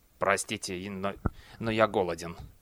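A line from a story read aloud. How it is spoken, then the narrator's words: Muttered. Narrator (Russian): Клусар пробормотал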